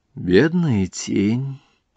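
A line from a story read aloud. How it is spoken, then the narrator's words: Sighing. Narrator (Russian): вздохнула принцесса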